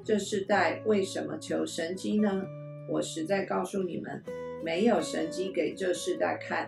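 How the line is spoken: Deep sigh, sorrowful. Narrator (Chinese): 耶稣心里深深的叹息，说

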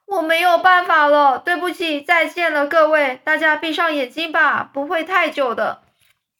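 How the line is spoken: Shouting. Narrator (Chinese): 詹姆斯大叫说

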